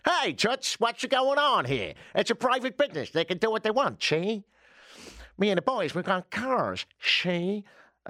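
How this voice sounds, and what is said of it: Failed Canadian accent, sounds old New York. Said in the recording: “I don't know why you're from New York, but you could say that. Hey, it's from the 20s as well, apparently ... obviously I failed to do the Canadian accent, so that's as close as I can get”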